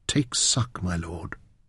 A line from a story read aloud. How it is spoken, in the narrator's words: she whispered in his ear